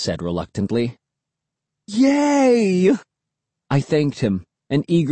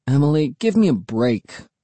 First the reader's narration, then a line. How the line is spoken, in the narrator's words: I groaned